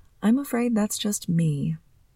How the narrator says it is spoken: I replied softly

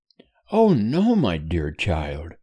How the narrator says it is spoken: replied his mother cheerfully

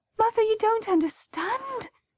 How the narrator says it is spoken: gasped Bridie

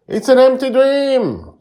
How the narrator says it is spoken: Poppy yells

